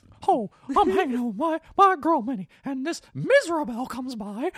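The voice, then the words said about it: Mickey Mouse cartoon voice impression. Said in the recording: “very scarily good at doing a Mickey Mouse impersonation... He can do well, by the way.”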